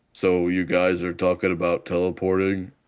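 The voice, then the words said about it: Attempts a very deep voice. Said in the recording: “the deepest voice on the planet Earth ... I can't even make my voice go low enough because his voice is so deep”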